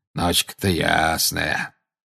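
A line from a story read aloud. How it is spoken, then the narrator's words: Grumbling. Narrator (Russian): проворчал Грюм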